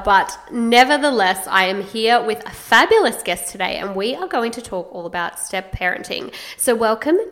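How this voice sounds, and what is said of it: Slightly croaky voice. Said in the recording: “my voice is a little bit croaky ... croaky, I have been under the weather”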